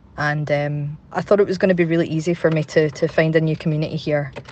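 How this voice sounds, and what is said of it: Glaswegian Scottish accent. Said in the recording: “obviously you can tell from my accent, I'm from here”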